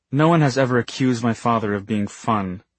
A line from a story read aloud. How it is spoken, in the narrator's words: Isabel said flatly